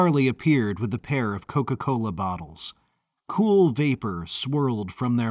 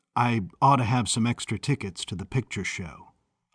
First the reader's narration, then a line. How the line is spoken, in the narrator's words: mumbled Charlie